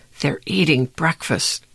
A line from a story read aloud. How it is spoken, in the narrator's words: Josh hissed into Dink's ear